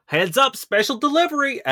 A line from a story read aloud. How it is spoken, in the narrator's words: over the intercom, Quip yell